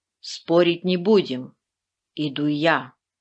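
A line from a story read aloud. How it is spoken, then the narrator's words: Calm explanation. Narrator (Russian): спокойно объяснил Велес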